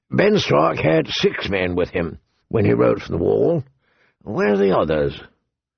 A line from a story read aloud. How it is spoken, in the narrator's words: the old bear said gruffly